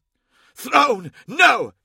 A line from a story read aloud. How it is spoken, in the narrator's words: hissed